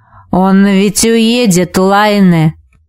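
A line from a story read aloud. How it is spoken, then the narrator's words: Hoarse. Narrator (Russian): прохрипел Витус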